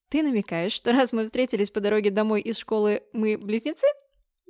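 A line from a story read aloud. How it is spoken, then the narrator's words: Playful giggle. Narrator (Russian): хихикнула я, подыгрывая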